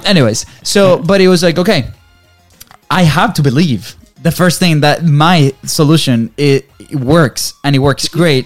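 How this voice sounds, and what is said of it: Non-native English accent. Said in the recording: “my English is not very good ... If we can do it with our accent”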